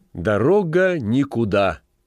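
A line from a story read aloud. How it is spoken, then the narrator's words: Loud, smiling. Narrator (Russian): громко произнесла, улыбаясь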